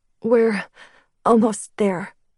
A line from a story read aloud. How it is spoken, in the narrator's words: she said, her voice shaking from the cold